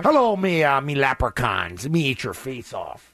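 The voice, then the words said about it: Leprechaun character voice. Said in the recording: “in my leprechaun voice”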